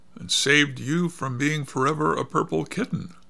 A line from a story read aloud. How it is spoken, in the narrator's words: replied the girl with a laugh